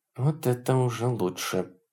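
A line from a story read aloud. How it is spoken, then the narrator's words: Muttered. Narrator (Russian): пробормотала адмирал Чин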